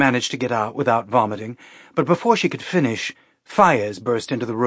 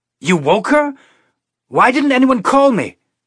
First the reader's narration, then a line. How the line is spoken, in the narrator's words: he yelled at Calvin